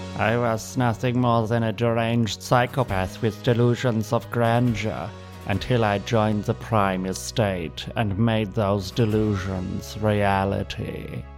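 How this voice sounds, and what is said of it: Sinister villain voice, European accent. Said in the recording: “the sinister high-toned voice of a typical cartoon villain ... a vaguely threatening European accent”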